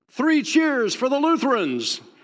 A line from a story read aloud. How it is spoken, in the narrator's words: yelled